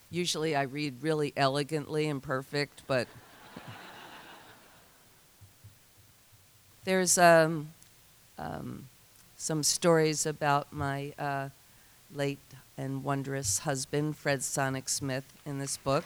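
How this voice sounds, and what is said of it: Congested, stuffed-up nasal voice. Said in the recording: “I'm really stuffed up. I can hear my voice sounds really weird”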